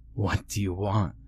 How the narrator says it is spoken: I choked

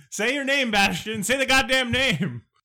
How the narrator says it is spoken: He screams out, Moonchild

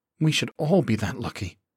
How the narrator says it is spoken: Choi muttered

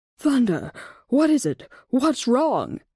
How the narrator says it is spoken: Shadow panted as he spoke

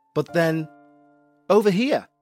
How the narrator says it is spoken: said Emily

